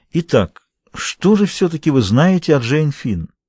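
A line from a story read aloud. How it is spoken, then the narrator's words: Soft weary voice. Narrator (Russian): утомленно улыбнулся и мягко продолжал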